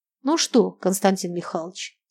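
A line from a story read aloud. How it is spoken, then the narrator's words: Quiet question. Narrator (Russian): тихо спросил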